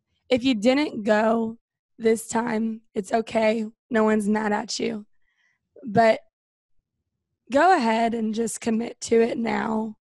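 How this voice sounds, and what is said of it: Hoarse, strained voice. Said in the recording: “I was the woo girl, obviously, this weekend. That's why my voice is gone.”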